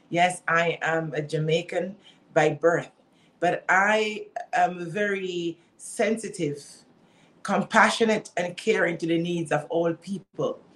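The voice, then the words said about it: Jamaican accent. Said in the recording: “based on my accent, one might say, oh, yeah, because she's Jamaican”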